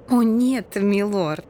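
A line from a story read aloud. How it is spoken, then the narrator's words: Embarrassed giggle. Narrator (Russian): Лия смущенно хихикнула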